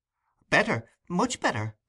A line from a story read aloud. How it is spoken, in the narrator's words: replied Oliver hastily